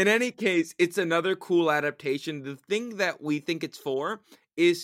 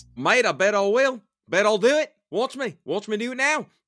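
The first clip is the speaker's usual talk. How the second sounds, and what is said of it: Put-on Australian accent. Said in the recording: “hope we don't have any listeners in Australia ... I don't apologize for my accent”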